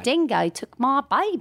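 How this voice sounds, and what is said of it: Put-on Australian accent. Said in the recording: “imitate an American doing a bad Australian accent ... the accent was perfect”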